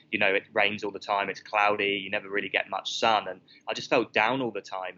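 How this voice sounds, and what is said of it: British accent. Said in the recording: “I moved because of the weather in the UK, as you can tell from my accent.”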